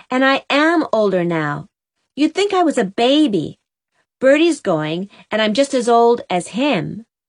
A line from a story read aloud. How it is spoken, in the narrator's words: cried Jem indignantly